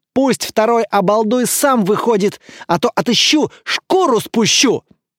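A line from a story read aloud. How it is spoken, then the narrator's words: Determined angry shout. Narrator (Russian): Петя … сжав кулаки, решительно выкрикнул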